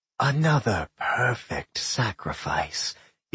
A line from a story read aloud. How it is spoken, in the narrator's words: it hissed